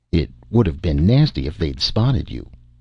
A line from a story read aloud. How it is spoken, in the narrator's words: said Ebor